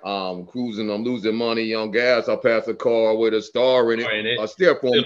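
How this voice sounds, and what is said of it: Deep Barry White-like voice. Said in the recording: “deep voice, but that dude got a deep voice. He's got like a Barry White voice.”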